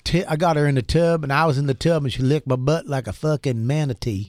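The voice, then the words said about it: Put-on Mississippi Southern accent. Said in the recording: “sans accent ... sans accent ... your weird Mississippi accent”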